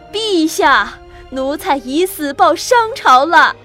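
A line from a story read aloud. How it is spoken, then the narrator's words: Shout. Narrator (Chinese): 喊完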